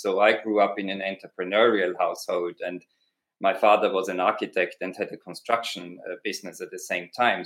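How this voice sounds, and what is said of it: Austrian accent. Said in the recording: “my accent, that's an Austrian accent”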